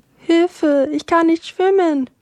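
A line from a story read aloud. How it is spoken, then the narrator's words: Desperate cry. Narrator (German): rief ganz verzweifelt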